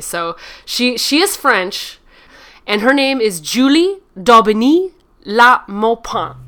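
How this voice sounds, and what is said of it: Exaggerated mock French accent. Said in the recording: “I do like a good, like, make fun of impression of French people. So that's kind of the version of French accent”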